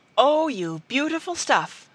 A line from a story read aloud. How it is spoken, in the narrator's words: she cried